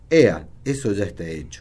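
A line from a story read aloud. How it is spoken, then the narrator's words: Plain. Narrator (Spanish): dijo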